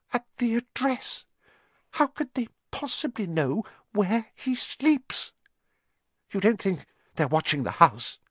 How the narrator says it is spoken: Aunt Petunia was saying in a quivering voice

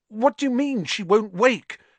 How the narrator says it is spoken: Harry said desperately

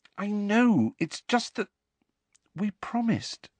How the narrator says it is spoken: said Hermione in a small voice

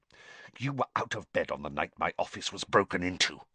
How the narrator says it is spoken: Snape hissed

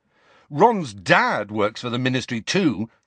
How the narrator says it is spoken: Harry said furiously

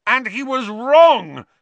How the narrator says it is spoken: Harry yelled

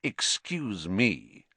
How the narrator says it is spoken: said Snape, icily

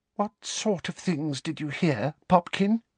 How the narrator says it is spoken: breathed Aunt Petunia, very white-faced and with tears in her eyes

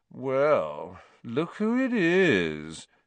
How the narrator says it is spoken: said Malfoy in his usual lazy drawl

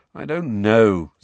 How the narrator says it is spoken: said Harry, getting wearily to his feet

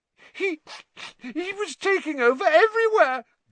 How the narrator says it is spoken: gasped Pettigrew

